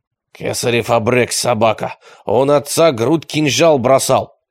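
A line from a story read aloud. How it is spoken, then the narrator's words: Growl. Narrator (Russian): прорычал Рахитбек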